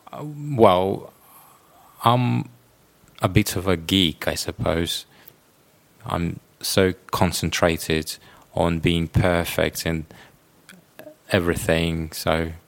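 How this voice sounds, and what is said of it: Russian speaker, British-style non-rhotic English. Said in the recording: “those answer, ask, no R sound at the end of the words ... I got used to the British accent ... I'm from Russia”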